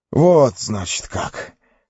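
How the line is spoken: Hoarse. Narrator (Russian): хрипло проговорил

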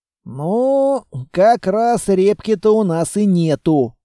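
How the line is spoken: Regretful sigh. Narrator (Russian): вздохнул с сожалением

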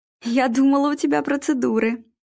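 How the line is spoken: Laughing. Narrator (Russian): Вера засмеялась

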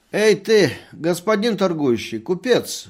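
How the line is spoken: Drunken voice. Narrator (Russian): говорил доктор пьяным голосом

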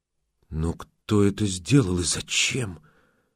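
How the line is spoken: Whisper. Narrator (Russian): прошептала Базанова

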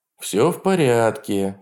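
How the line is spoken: Soothing voice. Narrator (Russian): сказал успокаивающим голосом

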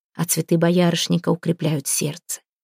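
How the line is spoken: Grandmother's whisper. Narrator (Russian): шептал голос бабушки

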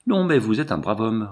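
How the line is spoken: Quick lively reply. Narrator (French): répondit vivement Méral

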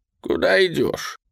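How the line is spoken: Sighing. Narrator (Russian): Федор вздохнул

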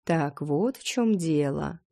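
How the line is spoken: Drawling. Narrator (Russian): протянул блондин

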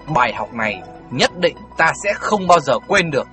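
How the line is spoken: Hissing through gritted teeth. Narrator (Vietnamese): Tiểu Phi nghiến răng nói như rít từng tiếng một

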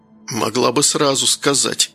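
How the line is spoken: Hoarse rasp. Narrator (Russian): прохрипел Данил

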